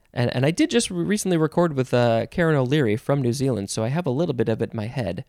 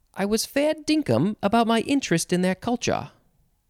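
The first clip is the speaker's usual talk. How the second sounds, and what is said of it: Australian or New Zealand accent. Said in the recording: “do this quote in an Australian or New Zealand accent ... I don't think that was too bad.”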